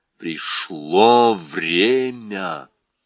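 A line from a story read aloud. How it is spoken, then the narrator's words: Growled. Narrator (Russian): Он прорычал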